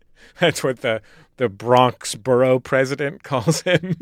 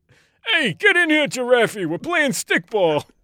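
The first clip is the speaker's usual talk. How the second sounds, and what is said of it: Put-on Bronx accent. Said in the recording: “That was a perfect Bronx accent.”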